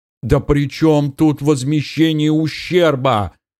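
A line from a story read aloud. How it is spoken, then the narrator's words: Wailing interruption. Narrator (Russian): завопил пострадавший, перебив подполковника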